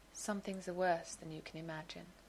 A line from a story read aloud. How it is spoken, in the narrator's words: said quietly